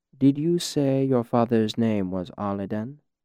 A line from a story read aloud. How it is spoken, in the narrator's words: He asked it very calmly, with no hint of regret or apology in his voice